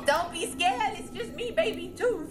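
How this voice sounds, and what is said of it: High prepubescent child character voice. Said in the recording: “My voice sounds like this because I'm prepubescent.”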